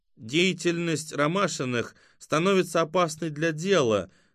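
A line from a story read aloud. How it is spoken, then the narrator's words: Nasal drawling voice. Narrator (Russian): заговорил гнусавым тягучим голосом невидимый абонент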